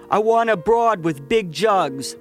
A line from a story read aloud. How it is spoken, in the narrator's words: one of the men yelled